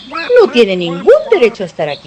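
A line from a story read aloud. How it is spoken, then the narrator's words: Exclaimed. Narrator (Spanish): exclamó Pata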